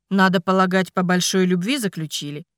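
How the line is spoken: Wry snort. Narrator (Russian): хмыкнул он

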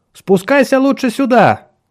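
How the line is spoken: Shouting. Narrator (Russian): крикнула она Ричарду

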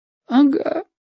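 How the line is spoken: Quiet sob. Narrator (Russian): тихонько всхлипнул Женька

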